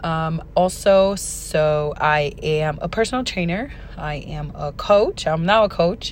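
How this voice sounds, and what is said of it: Hoarse, strained voice. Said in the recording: “I lost my voice a couple days ago, so this is not my natural voice”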